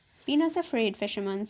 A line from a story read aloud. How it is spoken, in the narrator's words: said the genie